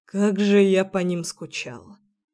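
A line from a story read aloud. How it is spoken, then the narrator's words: Mumbled. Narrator (Russian): Пробормотал он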